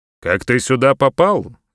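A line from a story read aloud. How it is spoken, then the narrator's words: Sharp question. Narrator (Russian): резко спросил он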